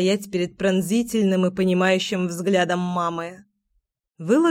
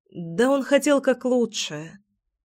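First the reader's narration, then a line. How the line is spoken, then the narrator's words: Sighing. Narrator (Russian): вздохнула я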